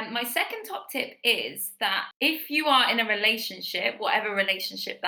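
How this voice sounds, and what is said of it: Usual voice. Nothing is said of it.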